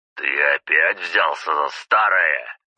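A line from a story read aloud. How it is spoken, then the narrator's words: Sudden roar. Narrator (Russian): неожиданно рявкнул Зубов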